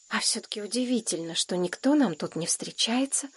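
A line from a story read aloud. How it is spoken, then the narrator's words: Whispered. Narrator (Russian): шепотом сказал Шурка Женьке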